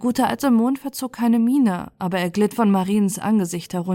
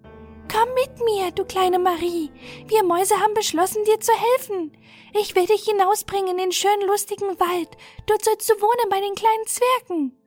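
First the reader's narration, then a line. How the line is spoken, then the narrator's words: Squeaky but clear mouse voice. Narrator (German): Das Mäuschen mit quiekender Stimme aber ganz deutlich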